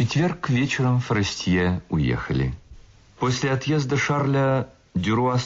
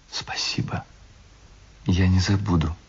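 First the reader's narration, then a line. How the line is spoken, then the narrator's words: Whisper. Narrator (Russian): прошептала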